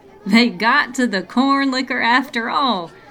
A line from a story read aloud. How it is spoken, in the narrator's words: Tad wheezed through laughter